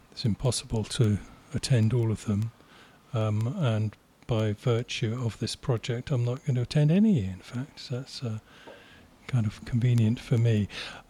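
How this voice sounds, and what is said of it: Polished radio-style speaking voice. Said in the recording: “you've got the best radio voice”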